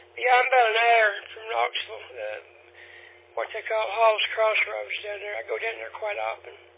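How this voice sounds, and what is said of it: Weak, strained voice. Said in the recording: “My allergies are acting up. My voice is about pissed off to nothing.”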